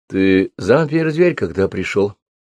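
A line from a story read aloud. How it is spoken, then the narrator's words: Plain. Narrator (Russian): спросила она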